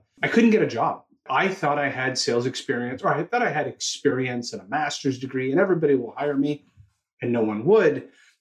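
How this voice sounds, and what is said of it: Canadian accent. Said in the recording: “you'll hear it in my accent, I'm from Toronto, Canada.”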